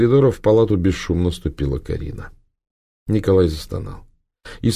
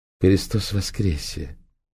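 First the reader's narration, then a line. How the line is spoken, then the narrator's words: Soft, pleasant low voice. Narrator (Russian): негромко сообщила Карина приятным низким голосом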